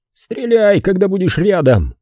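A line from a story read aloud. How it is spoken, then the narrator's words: Shout. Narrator (Russian): выкрикнул Зик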